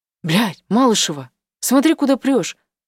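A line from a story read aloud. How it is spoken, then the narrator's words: Familiar slightly hoarse voice. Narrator (Russian): Слышу над собой родной, чуть хрипловатый голос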